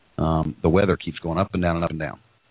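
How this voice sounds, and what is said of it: Froggy, congested voice. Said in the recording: “I sound a little more froggy than normal, just because I'm still congested”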